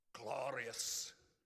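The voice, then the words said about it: Put-on Scottish accent. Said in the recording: “He'll even use a Scottish accent.”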